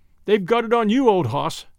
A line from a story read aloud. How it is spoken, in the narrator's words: The laugh went round, and everyone chuckled and said